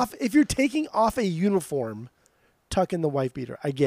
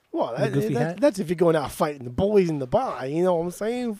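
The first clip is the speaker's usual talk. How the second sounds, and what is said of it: Put-on Boston accent. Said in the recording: “that's my Boston accent right here”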